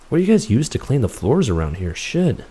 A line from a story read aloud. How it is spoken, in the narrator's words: Chris mumbled